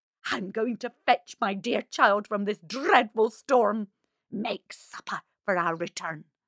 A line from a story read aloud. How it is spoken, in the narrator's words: With one last angry scowl at Marushka, she hissed